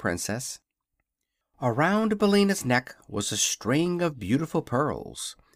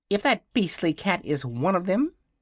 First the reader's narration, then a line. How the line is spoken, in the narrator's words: said Billina scornfully